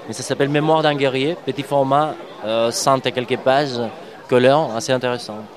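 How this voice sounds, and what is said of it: Noticeable accent in French. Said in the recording (French): “mon accent insouffrible et presque incompréhensible ... C'est très très bon accent”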